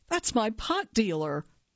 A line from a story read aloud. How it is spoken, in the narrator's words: I gasped, and I said